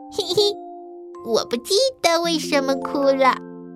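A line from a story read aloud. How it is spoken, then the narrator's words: Quiet murmur. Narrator (Chinese): 小声叽叽道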